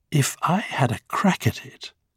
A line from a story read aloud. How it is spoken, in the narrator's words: said Addy wistfully